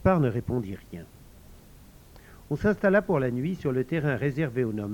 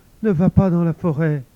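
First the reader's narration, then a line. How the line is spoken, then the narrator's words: Trembling voice. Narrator (French): dit Jérôme d'une voix tremblante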